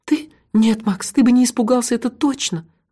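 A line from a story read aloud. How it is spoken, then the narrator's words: Sighing. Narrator (Russian): вздохнула Меломори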